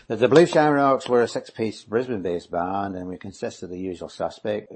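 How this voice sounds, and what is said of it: Speaks with a distinctive accent. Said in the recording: “Oh, I love your accent”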